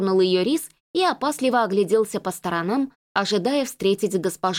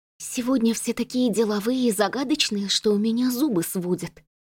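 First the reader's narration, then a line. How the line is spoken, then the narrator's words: Mutter. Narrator (Russian): пробормотала Марта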